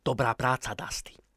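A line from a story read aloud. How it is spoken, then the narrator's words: Said quietly. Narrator (Slovak): povedal Paul potichu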